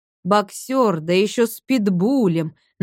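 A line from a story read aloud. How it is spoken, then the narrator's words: Mocking drawl. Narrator (Russian): насмешливо протянул третий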